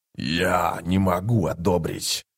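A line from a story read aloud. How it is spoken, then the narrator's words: Hoarse through torn lips. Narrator (Russian): прохрипел разорванными губами Гитол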